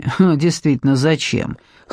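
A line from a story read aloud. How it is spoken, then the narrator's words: Man's skeptical snort. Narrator (Russian): хмыкнул мужчина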